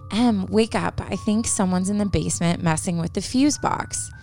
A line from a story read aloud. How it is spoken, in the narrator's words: she whispered to her